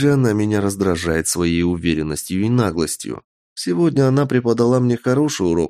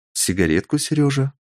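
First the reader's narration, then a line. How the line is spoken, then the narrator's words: Tender question. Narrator (Russian): Ласково спросила Ехи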